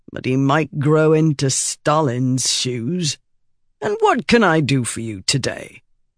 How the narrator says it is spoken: said gloomily

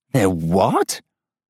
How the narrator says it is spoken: I hear my voice rise uncontrollably, cracked

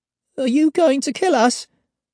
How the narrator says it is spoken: asks Alex, unable to keep a quaver out of his voice

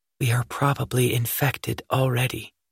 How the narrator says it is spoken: she whispered very softly

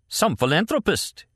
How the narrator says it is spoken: he cried from the wall

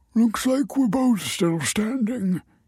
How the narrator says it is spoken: he muttered

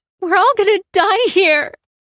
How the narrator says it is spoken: wailed the woman in the scarf, sobbing into her friend's arms

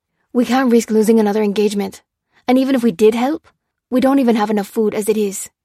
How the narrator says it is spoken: snapped Lopez

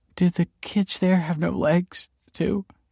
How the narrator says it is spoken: choked the mother

